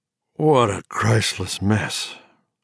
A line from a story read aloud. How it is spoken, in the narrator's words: he said hoarsely to Ron